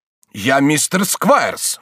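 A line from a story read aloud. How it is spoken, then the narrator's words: Exclamation. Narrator (Russian): воскликнул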